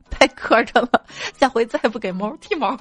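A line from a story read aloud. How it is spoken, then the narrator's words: Bursting with laughter. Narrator (Chinese): 他忍不住笑得喷出来，说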